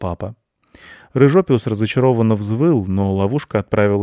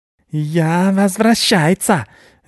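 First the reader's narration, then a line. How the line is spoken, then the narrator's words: Rat squealing. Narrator (Russian): визжал вытряхнутый на траву в лесу крыс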